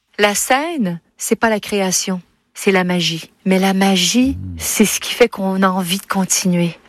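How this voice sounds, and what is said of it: Quebec French accent. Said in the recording (French): “en interview, elle retrouve son accent québécois”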